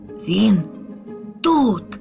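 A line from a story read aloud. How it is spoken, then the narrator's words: Whisper. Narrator (Ukrainian): зашепотів Хропусь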